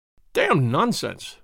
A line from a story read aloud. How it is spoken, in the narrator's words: he spluttered